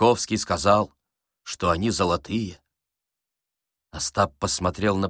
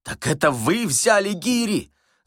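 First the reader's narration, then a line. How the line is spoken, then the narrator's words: Shouting. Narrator (Russian): закричал Остап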